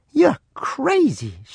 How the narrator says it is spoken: she gasped

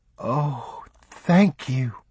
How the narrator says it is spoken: she breathed

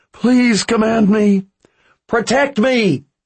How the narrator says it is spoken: screamed

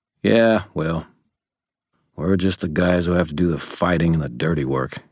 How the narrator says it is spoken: he said bitterly

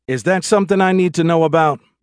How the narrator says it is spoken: She called out loudly enough to be heard above the boiling water in the pot

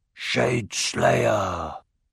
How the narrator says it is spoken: They murmured

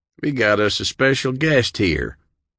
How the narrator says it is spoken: Burnett announced loudly so all around him could hear

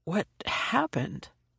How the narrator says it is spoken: I croaked

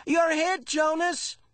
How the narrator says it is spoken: Asher yelled from behind the tree

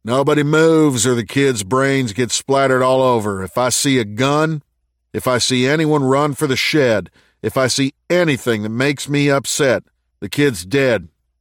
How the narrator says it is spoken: He gave a nasty grin and yelled

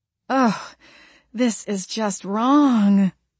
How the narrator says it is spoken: Jenny moaned

